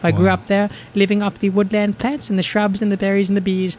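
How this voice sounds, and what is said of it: Invented island accent, comic character voice. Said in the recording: “I do not speak Irish, nor do I speak British, nor do I speak Scottish, but I speak a small, off-the-island, island accent”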